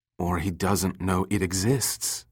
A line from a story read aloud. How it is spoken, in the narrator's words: Summer whispered